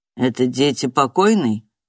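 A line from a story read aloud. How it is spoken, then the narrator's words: Plain. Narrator (Russian): спросил он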